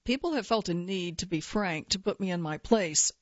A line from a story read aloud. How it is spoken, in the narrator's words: she says